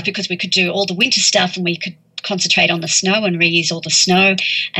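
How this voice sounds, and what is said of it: Speaks with a noticeable accent. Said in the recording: “I absolutely love your accent.”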